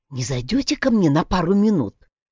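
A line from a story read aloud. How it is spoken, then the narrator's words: Muffled, mysterious voice. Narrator (Russian): произнес Йонас приглушенным таинственным голосом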